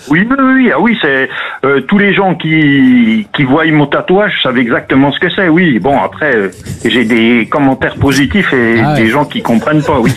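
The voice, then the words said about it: Franche-Comté regional French accent. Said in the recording (French): “l'accent magnifique... l'accent du Jura... L'accent doubiste... En Franche-Comté, oui, effectivement, oui. On a un accent qui se reconnaît facilement.”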